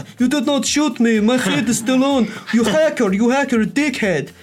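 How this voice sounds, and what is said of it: Bad put-on Swedish accent. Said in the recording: “It's a bad Swedish accent.”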